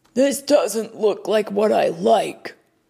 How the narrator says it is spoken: her dad whined

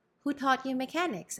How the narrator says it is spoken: asked Ñor Juan

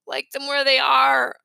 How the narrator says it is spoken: said sleepily

